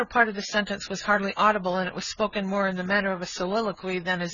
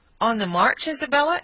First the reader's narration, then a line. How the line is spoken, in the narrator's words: eagerly inquired her brother